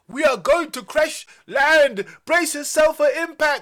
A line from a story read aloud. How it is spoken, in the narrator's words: screamed Zoi in a scared voice